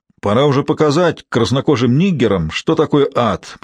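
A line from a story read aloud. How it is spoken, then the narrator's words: Grumbling. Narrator (Russian): проворчал чей-то голос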